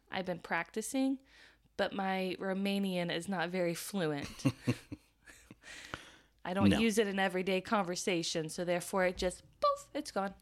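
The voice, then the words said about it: American Midwestern accent. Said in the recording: “my very sweet Midwestern accent”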